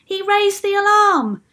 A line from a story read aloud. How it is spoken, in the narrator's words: shouted another